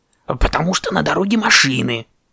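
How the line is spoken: Raven shouting. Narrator (Russian): крикнул ворон

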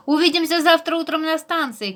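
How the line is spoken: Shouting after them. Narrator (Russian): крикнул Харви им вслед

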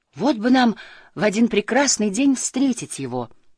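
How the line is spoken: Exclaimed. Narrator (Russian): воскликнула Тюлиппа

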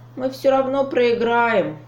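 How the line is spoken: Sighing. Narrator (Russian): вздохнул Лапик

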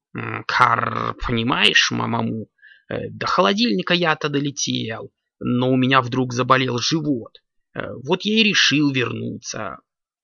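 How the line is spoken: Raven's muttering. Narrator (Russian): пробормотал ворон

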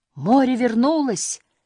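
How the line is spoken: Exclaiming. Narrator (Russian): воскликнул папа Муми-тролля

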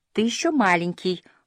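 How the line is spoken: Gentle explanation. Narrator (Russian): ласково пояснил Фредриксон

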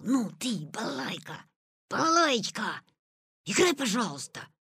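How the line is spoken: Whispered reply. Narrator (Russian): ответил он и зашептал

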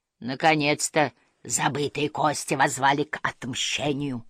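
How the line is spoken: Menacing ghostly grumble. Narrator (Russian): угрожающе пробурчало привидение

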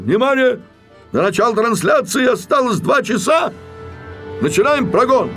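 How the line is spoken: Director shouting. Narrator (Russian): режиссер Грамматиков, ответственный за концерт, закричал

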